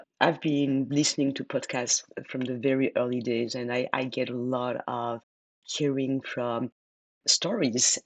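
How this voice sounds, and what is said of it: French accent. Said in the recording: “my French accent ... a French accent”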